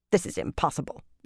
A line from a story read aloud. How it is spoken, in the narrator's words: Javindra growled, though not very strongly